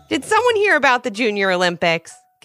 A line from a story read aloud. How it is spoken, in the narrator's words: giggled her mom with a smile